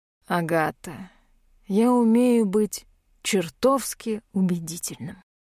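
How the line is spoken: Tired. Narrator (Russian): устало произносит Рэмер

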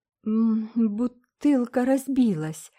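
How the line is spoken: Trembling voice. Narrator (Russian): дрожащим голосом ответила Полина

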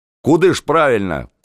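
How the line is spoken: Shout. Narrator (Russian): кричал Татищев

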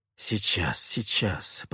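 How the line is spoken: Muttering. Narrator (Russian): пробормотал я

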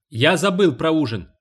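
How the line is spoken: Shouted reply. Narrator (Russian): крикнул он в ответ

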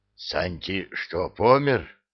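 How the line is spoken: Breathless exhale. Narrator (Russian): выдохнул

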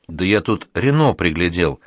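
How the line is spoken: Joyful declaration. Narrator (Russian): радостно заявляет Шкет

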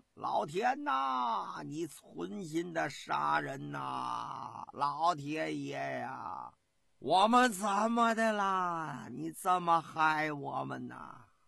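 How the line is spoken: Miserable wailing. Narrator (Chinese): 声音十分的悲惨

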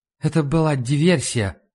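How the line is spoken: Muffled, hollow. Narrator (Russian): глухо сказал Лундквист

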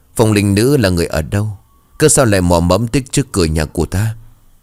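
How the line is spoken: Trembling murmur. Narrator (Vietnamese): Thân thể của Phượng bỗng chốc run rẩy, đôi môi mấp máy

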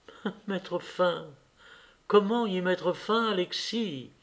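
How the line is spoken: Soft. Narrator (French): dit-elle doucement

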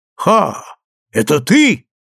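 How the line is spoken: Exclaimed. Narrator (Russian): воскликнул один из них, великий охотник, которого звали Глаза Лисицы

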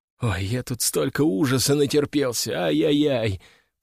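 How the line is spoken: Groaning. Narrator (Russian): простонал я

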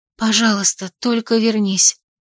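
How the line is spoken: Soundless whisper. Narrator (Russian): прошептала одними губами

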